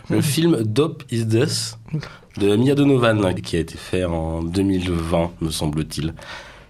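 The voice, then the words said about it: Noticeable accent in French. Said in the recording (French): “désolé pour mon accent”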